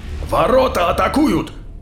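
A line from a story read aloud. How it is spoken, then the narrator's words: Barked over vox. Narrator (Russian): Рявкнул по воксу Казан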